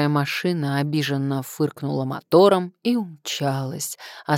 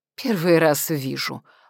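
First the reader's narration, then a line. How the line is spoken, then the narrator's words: Contemptuous snort. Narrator (Russian): фыркнула презрительно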